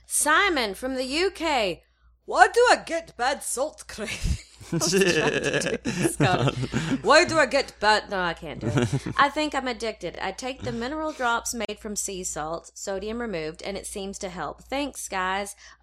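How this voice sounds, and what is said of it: Failed Scottish accent, sounds Russian. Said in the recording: “She's only doing half accents today. ... I was doing Russian or something weird there. ... it still went back to some ... Russian.”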